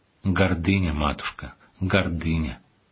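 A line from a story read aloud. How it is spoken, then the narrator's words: Sad reproachful elder. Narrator (Russian): владыка с печальной укоризной сказал ей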